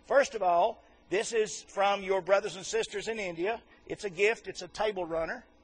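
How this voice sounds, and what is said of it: Fast-talking Southern American accent. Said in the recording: “the fastest talking Southern boy they've ever seen ... I'm going to talk kind of fast”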